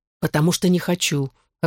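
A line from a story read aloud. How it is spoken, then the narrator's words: Snapping. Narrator (Russian): огрызнулся я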